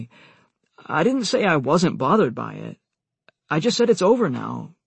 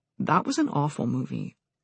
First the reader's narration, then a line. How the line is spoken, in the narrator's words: Amy said